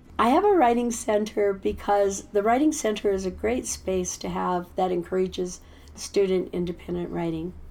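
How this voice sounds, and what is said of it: Tired, sick-sounding voice. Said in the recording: “I can tell that your voice is tired. I can tell you're on penicillin.”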